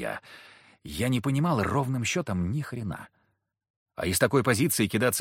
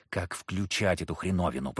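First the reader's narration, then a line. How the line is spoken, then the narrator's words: Hissing. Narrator (Russian): прошипел я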